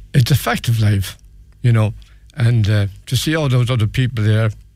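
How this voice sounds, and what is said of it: Emotional, choked-up voice. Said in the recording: “I'm sorry if I'm getting emotional,”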